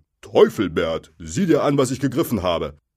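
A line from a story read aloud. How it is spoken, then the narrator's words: Call. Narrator (German): rief Bill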